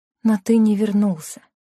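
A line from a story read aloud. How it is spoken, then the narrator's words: Sad. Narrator (Russian): грустно произнесла Лена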